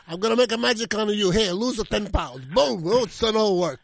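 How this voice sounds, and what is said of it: Puppet wizard voice, Italian accent. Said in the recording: “it's an Italian wizard ... It's like Merlin, but he has an Italian accent.”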